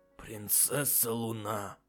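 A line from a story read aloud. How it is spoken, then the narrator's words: Breathed out. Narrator (Russian): выдохнул он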